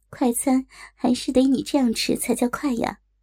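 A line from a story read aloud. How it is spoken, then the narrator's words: Pausing, smiling. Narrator (Chinese): 李依林停了停，笑了笑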